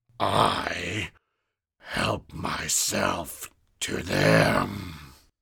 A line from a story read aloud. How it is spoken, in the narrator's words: he hissed